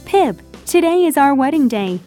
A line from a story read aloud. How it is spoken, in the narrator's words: Biddy cried